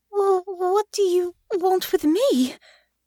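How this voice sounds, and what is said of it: Trembling, frightened voice. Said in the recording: “hearing the trembling in her own voice”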